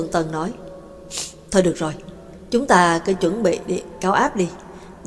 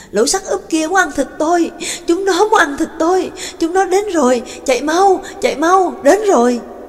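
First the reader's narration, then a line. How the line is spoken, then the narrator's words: Frantic screaming. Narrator (Vietnamese): gã cứ hét ầm ĩ lên, không ngừng gào thét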